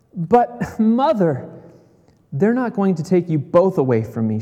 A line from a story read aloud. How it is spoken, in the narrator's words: cried